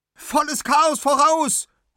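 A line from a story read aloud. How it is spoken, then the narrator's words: Calling out. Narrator (German): ruft Anna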